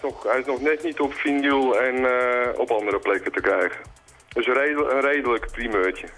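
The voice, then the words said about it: Amsterdam Dutch accent. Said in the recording (Dutch): “Uit Amsterdam... Accent, hè? Ik heb geprobeerd om er vanaf te komen, maar het lukt nog steeds niet.”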